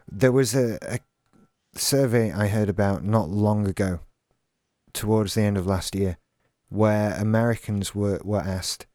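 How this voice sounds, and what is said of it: Posh British accent. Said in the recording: “your highfalutin Britishness ... you sound like a imperial captain”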